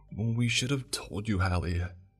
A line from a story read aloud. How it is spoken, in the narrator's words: she whispered